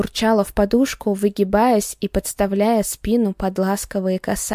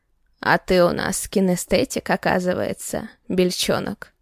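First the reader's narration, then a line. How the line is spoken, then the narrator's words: Sudden hoarse male voice above. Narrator (Russian): прохрипел вдруг сверху мужской голос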